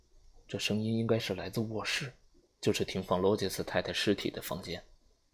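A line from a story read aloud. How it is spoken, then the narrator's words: Whispered. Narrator (Chinese): 阿姆斯特朗悄声地说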